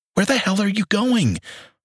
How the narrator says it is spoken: I panted

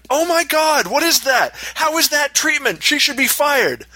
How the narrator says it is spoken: Again, the woman screamed

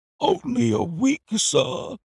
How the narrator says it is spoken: he cried in a despairing voice

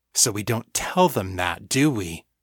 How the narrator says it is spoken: He said, his voice low and dangerous

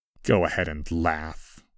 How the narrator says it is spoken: I muttered

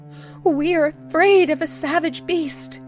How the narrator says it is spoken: she cried

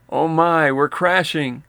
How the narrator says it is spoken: The driver's wife yelled

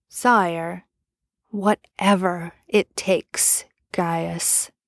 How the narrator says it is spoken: Arthur said quietly, forcefully

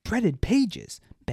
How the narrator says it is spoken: Baz shouted

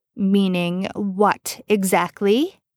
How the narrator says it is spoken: Dean snarled

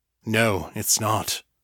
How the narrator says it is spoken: Ardvalos said gravely

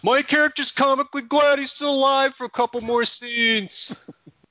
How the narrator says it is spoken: Gary stands up and triumphantly screams

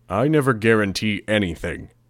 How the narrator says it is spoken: Defiant grunted, echoing my words

